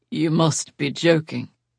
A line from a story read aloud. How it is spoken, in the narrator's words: he said, but his voice was dry